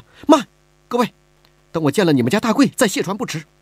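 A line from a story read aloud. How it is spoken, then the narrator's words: Urgent, anxious tone. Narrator (Chinese): 李婉儿急了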